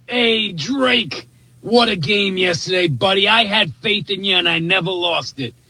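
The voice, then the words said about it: Boston accent. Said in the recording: “That accent to me is the greatest thing ever ... That's a classic Bostonian on that phone”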